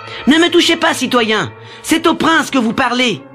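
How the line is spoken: Shouted. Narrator (French): cria Édouard en essayant de se libérer

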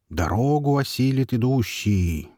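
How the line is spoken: Meaningful drawl. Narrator (Russian): многозначительно протянул Жук

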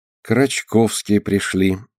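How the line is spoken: Dejected voice. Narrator (Russian): упавшим голосом говорит Алина

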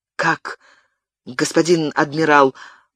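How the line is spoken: Confused mutter. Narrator (Russian): пробормотал растерявшийся Габриэль

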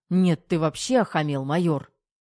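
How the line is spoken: Barked. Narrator (Russian): рявкнул Головин

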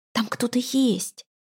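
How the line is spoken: Barely audible whisper. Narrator (Russian): почти неслышно прошептал он

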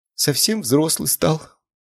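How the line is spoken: Tearful mother. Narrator (Russian): сквозь слезы произнесла мама

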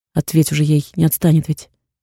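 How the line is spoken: Plain. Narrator (Russian): говорит

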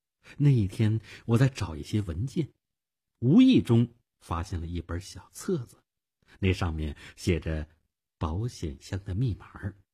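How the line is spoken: Soft-spoken. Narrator (Chinese): 他轻声地说

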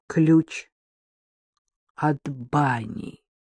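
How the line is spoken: Spoke slowly. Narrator (Russian): медленно проговорил Макар

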